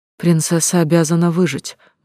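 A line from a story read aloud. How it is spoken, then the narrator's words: Gloomy joyless voice. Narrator (Russian): мрачно произнесла я, не испытывая при этом особой радости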